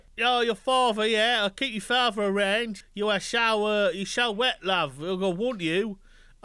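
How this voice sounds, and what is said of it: Put-on Essex accent. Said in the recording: “The sexiest accent of all time is Essex. ... depending on where you are in Essex, the vowel sounds get longer and longer”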